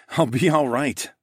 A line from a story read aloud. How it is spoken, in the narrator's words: chuckled